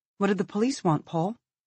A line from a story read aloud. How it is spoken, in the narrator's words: Olivia asks nervously